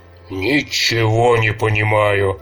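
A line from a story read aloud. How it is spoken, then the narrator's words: Grumbling old man. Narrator (Russian): ворчал старый лесник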